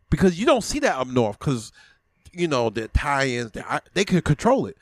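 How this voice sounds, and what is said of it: Brooklyn accent. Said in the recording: “I was hearing an accent ... is that New Orleans? ... Is that Dallas, Texas? ... it's always going to be Brooklyn”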